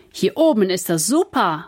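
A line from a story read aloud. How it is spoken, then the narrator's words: Calling out. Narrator (German): ruft Kevin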